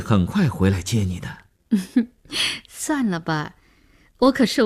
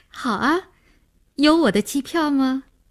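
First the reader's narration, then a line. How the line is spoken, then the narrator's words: Smiling. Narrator (Chinese): 林星就笑笑说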